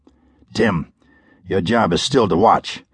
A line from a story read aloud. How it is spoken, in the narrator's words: Operator 5 declared quietly